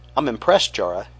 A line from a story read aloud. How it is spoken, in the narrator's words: he said